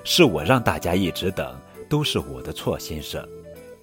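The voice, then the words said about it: Soft, quiet voice. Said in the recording (Chinese): “小声说”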